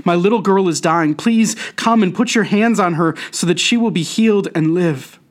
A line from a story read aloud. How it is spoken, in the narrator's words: he begged